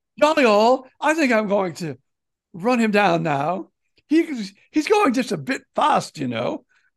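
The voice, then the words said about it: Put-on English accent. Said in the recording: “Somehow I don't think in England that was quite his accent”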